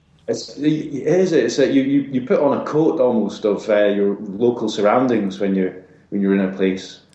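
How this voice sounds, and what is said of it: Generic Scottish accent. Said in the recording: “a generic sort of pretty boring Scottish accent”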